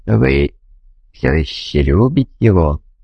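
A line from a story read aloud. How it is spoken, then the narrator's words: Gentle question. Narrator (Russian): мягко спросил ее я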